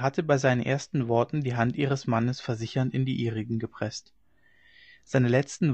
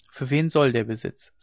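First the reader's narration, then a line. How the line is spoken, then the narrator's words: Plain. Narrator (German): sagte sie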